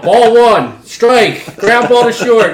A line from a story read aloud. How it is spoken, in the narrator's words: I just yelled